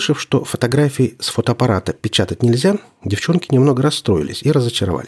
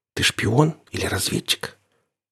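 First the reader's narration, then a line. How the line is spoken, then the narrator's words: Whispered question. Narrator (Russian): Катя наклонилась к моему уху и шепотом спросила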